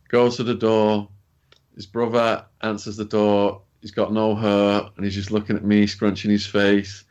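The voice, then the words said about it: English accent. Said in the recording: “pale, skinny English guy ... he starts buzzing off my accent. He's like, damn, you talk funny. I guess you are from England.”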